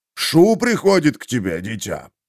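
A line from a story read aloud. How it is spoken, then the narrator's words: Deep voice, priest. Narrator (Russian): пробасил священник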